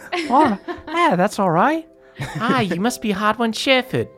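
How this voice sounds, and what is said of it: Character voice with put-on accent. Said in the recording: “I love your accent.”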